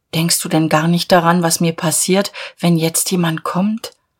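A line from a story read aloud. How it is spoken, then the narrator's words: Sad question. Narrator (German): Sie fragte traurig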